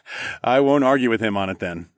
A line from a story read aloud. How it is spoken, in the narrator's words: I laughed